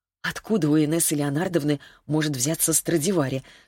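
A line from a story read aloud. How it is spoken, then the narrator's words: Suddenly hoarse question. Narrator (Russian): спросила она внезапно охрипшим голосом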